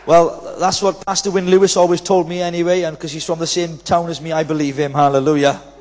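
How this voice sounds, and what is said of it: Welsh accent. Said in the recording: “So I'm Welsh, you see, boy... you need to get used to my accent”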